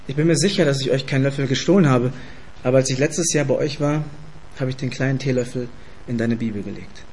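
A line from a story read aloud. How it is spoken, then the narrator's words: Calm, slightly shocked reply. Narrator (German): etwas geschockt wegen ihrer Anschuldigung antwortete mit ruhiger Stimme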